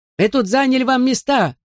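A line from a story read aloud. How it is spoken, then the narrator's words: Old man yelling. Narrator (Russian): заорал дедушка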